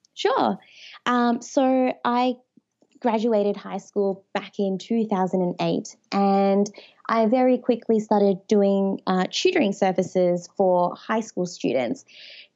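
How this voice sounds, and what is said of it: Australian accent. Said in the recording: “I love that accent ... is Australian as well ... my accent isn't too strong ... not at all”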